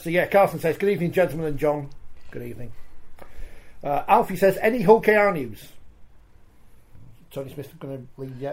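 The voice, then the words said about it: Wakefield North Yorkshire English accent. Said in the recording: “I've got a very cultured Wakefield accent, having grown up in Selby for a bit, so there's a bit of North Yorkshire in there”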